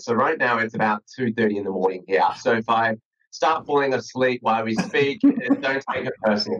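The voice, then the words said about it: Australian accent. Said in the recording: “As you probably can tell from my accent, I'm based in Sydney, Australia.”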